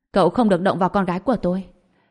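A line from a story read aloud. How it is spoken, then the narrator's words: Cold. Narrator (Vietnamese): Trần Bình, khuôn mặt lạnh lùng nói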